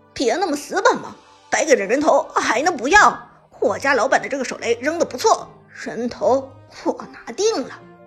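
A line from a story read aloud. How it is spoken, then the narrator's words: Hearty laughter. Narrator (Chinese): 韩小军哈哈一笑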